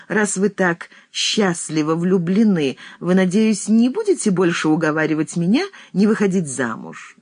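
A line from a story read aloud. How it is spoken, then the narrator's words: Laughing question. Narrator (Russian): смеясь, спросила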